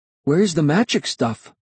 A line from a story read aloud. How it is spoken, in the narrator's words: He stammered